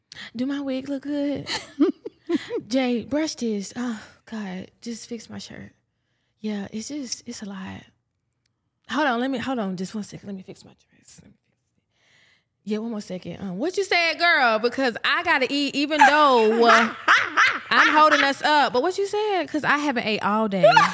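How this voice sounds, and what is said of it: Impression of the co-host. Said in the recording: “Do an impression of me.”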